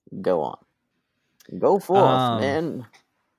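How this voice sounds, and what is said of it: Imitates another person's voice. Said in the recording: “That was my Lincoln impression”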